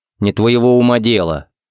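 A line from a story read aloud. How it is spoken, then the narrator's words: Stern. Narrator (Russian): строго сказал Харри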